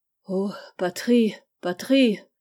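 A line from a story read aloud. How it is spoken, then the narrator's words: Sighing. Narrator (French): dit avec un soupir Andouré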